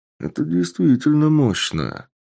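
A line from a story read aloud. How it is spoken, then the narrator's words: Summing up. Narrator (Russian): подытожил Сергей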